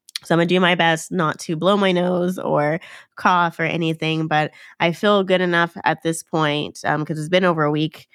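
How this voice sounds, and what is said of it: Nasal, congested voice. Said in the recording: “as you can probably hear from my voice, I sound extremely nasally. That's because I have another cold.”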